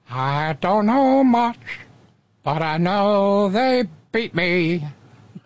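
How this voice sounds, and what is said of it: Imitates another person's singing voice. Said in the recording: “my Aaron Neville impression ... That was bad.”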